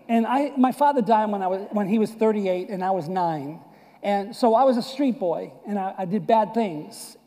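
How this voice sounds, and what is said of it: Boston and New York accent. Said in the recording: “I was born and raised in Boston and New York area. You can clearly see that this is not deep South accent.”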